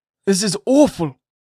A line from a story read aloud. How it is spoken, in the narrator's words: cried the governor, slowly recovering from the astonishment to which Pearl's response had thrown him